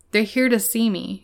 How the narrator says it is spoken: Houdini replied

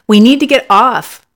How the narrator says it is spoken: I yell in his ear to be sure he hears me above the rattling roar of the engine

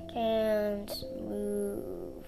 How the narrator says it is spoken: he slurred

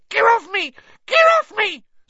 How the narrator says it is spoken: squealed the gnome

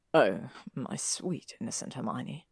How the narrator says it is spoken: he murmured

